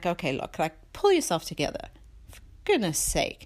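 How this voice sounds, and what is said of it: Motherly scolding voice. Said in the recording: “my mom voice kicked in”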